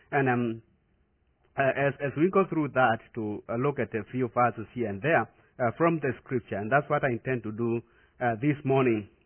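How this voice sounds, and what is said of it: Non-native English accent. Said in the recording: “my accent is a little bit different ... Sometimes I tend to speak a little bit faster”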